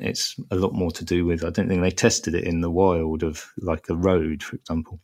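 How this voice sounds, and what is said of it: Strong Estuary English accent. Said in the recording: “my strong estuary accent”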